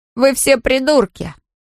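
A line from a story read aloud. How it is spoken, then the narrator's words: Laughing. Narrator (Russian): Джей Ди рассмеялся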